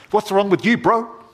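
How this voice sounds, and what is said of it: Put-on Maori accent. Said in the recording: “I'll do a Maori one”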